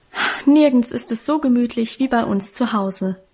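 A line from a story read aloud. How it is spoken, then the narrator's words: Contented sigh. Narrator (German): hatte Guste mit einem befriedigten Seufzer versichert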